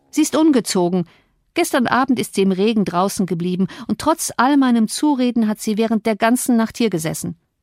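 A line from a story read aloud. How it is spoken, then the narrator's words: Interjecting call. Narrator (German): rief ich dazwischen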